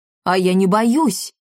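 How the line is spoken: Plain, blacksmith. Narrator (Russian): сказал кузнец Дармидонт

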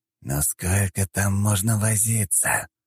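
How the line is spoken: Displeased hiss. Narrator (Russian): недовольно прошипел барон

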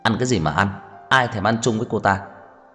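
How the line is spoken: Angry shout. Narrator (Vietnamese): Cố Dư Sinh hét lên

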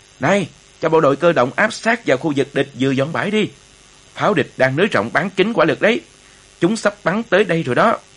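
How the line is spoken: Urgent shout. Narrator (Vietnamese): tiểu đoàn trưởng Hải Đông vội khoát tay hét lên

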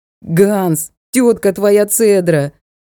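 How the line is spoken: Sudden yell. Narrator (Russian): завопил вдруг Ник

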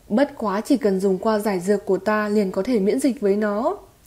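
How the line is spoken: Smiling. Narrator (Vietnamese): Tiểu Y Tiên mỉm cười nói

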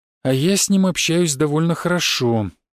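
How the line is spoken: Sighing. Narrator (Russian): вздохнул Антон

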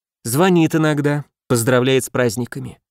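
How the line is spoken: Sighing. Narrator (Russian): она вздохнула

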